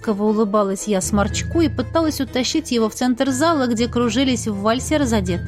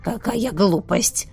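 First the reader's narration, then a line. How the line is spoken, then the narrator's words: Old man grumbling. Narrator (Russian): ворчал дед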